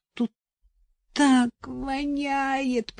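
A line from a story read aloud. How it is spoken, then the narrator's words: Moaning. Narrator (Russian): простонала она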